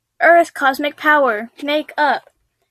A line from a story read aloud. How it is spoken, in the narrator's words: Lily shouted